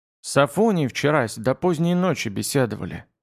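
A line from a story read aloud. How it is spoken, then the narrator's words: Quiet reply. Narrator (Russian): тихо отозвался Бугай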